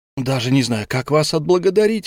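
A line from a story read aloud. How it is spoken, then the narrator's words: Delighted exclamation. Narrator (Russian): воскликнул осчастливленный клиент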